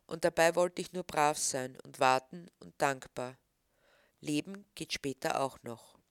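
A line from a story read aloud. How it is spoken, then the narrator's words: Sad. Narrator (German): traurig sagen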